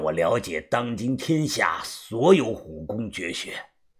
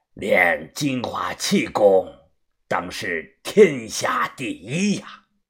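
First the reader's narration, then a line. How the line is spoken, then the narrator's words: Loud, drunken, hiccuping. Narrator (Chinese): 他又打了个酒嗝，大声的说道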